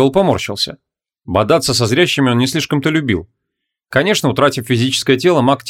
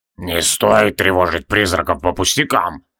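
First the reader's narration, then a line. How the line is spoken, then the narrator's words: Creaky voice. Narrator (Russian): проскрипел Тивилдорм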